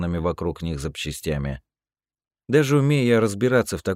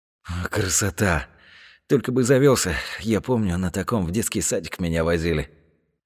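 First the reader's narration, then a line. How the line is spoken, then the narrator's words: Breathed out. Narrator (Russian): выдохнул Серега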